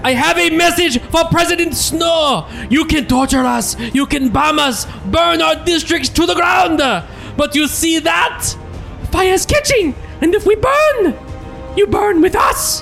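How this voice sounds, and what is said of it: Put-on Swedish accent, rising pitch. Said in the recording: “Maybe you're a Swedish accent. ... It's more accurate. ... I like the choice, too, to get really high at the end.”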